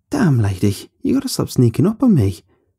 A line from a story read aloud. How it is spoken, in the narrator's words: I laughed and continued